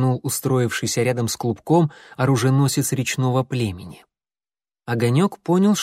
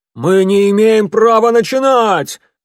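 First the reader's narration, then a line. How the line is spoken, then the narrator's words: Loud howling declaration. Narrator (Russian): заявил кто-то громким воющим голосом, перекрывая всеобщее возмущенное ворчание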